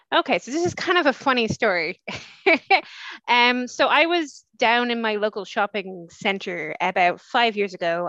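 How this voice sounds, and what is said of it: Irish accent. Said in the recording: “I'm based in Dublin, Ireland, as you can probably hear from my accent.”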